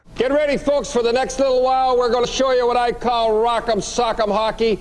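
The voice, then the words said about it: Very thick Canadian accent. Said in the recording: “this might be one of the thickest Canadian accents going.”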